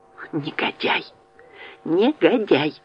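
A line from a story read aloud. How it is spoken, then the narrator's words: Whisper. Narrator (Russian): зашептала Элизабет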